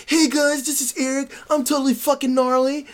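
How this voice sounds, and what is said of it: Mock white skater dude voice. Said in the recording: “You try to make me sound like a white skater.”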